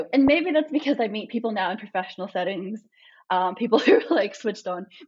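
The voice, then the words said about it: Australian accent with American twang. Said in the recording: “I tell them I'm Australian, I speak with this accent ... they can hear an American twang”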